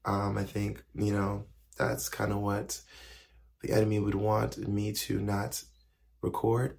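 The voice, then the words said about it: Weak, strained voice. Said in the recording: “if you can hear already, my voice is not here”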